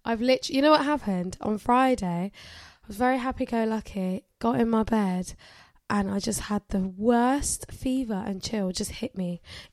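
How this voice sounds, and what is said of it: Nasal, congested sick voice. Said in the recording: “I've been very sick. ... can you hear the nasal in my voice?”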